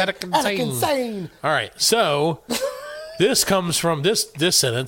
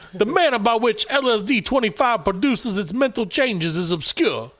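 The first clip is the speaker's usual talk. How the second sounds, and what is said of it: Attempted New York accent. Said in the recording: “Should I do like try to do a New York accent? ... Yeah, but that's more of a Chicago.”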